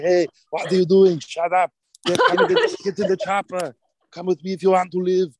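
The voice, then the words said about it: Arnold Schwarzenegger impression. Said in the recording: “I loved Arnold Schwarzenegger. That was like one of my first favorite impersonations. ... I'd be going around doing Arnold to everybody”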